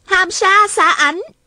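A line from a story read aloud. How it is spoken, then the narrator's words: Sudden shout. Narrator (Vietnamese): Hà Thiết Thụ bỗng la lên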